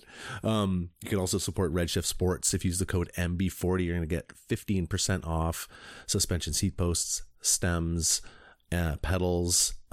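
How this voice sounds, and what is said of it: Hoarse, worn-out voice. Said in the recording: “I'm kind of losing my voice.”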